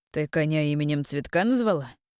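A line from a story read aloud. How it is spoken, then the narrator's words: Mocking snort. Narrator (Russian): хмыкнул Кирьян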